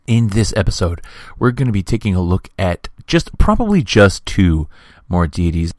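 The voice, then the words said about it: Hoarse, nearly lost voice. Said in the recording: “As you can hear, I've lost my voice, ... my voice is so shredded”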